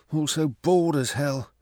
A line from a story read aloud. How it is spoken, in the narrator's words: Psyche murmured